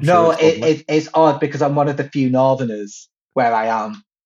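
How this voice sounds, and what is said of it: Mancunian accent. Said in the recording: “based on your accent, you sound Manc to me ... Nah, I'm Manc.”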